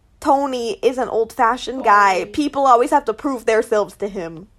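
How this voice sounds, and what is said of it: Slipping into a Jersey accent. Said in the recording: “I don't know what accent I was trying to do. I'm trying to, like, fight the Jersey instinct. It's not working.”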